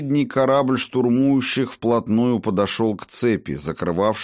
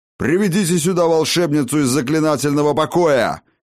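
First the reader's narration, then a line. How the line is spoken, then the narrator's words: Barking order. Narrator (Russian): рявкнул он вестовому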